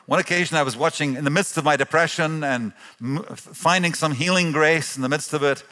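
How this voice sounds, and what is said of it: Mixed international accent. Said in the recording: “my accent kind of gives away that mixture of backgrounds.”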